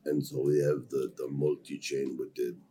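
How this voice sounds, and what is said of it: Mock heavy thick Russian accent. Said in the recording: “this heavy, yeah. thick Russian accent, which is fine, but it sounded like it sounded like this.”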